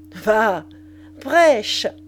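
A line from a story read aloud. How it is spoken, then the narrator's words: Sneering snicker. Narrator (French): ricana Limanus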